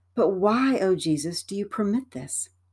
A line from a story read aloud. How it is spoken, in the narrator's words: some souls exclaim